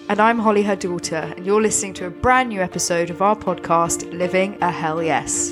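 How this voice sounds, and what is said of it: Sniffly, slightly husky voice. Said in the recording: “I'm a little bit sniffly today, so apologies if my voice is a bit husky ... I like a bit of huskiness myself.”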